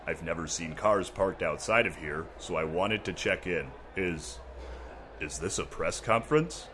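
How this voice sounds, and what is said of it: Deep put-on character voice. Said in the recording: “I'm just a security guard with a deep voice.”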